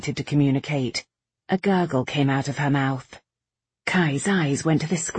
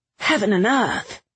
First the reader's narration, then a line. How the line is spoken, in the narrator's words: he exclaimed